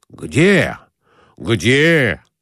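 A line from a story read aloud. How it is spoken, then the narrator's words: Excited exclamation. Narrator (Russian): воскликнул Николай Иванович, оживляясь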